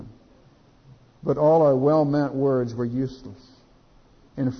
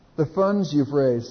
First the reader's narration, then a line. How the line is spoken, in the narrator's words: said Betsy